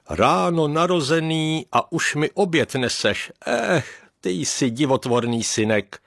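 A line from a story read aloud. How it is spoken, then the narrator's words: Father laughing. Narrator (Czech): zasmál se otec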